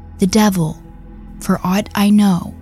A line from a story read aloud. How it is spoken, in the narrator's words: So calmly, she replies